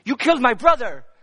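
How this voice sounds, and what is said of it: Put-on Russian accent. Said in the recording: “he's Russian, so that was a Russian accent.”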